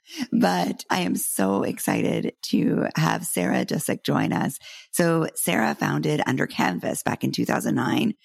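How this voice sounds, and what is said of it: Congested voice with a cold. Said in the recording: “I have a little bit of a cold today, so I apologize if I sound like”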